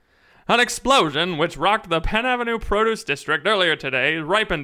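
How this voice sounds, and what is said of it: Old-fashioned 1930s newsreader voice. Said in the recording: “I'll read it in a 1936 news voice.”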